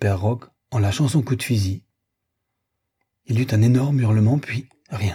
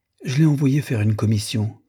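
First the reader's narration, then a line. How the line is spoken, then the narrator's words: Plain. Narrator (French): répondit Louise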